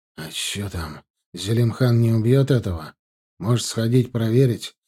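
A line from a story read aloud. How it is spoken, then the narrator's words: Husky low male voice. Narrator (Russian): хрипловатый низкий голос одного из боевиков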